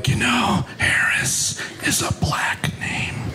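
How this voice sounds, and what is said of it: Whispered line. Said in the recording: “why are we whispering?”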